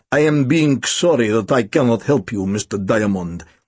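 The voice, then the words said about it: Strong Russian or German accent. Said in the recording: “He'd been speaking with a strong accent that could have been Russian or German ... His English was terrible”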